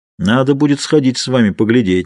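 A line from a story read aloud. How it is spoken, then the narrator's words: Plain. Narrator (Russian): сказал Джордж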